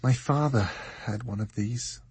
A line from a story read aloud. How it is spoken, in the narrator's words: she said, sadly